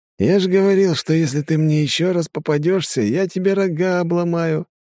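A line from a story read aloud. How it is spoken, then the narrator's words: Mocking elf voice. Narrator (Russian): насмешливым голосом уточнил эльф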